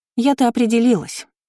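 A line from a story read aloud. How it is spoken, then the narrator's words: Noblewoman shouting from bedroom. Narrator (Russian): крикнула аристократка, успевшая скрыться в спальне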